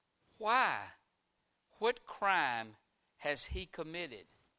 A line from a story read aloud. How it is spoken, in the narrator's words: asked Pilate